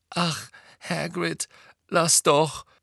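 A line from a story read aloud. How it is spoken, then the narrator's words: Groaning. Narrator (German): stöhnte Hermine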